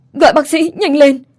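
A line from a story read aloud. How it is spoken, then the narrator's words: Urgent shout. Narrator (Vietnamese): Bà vội hét lên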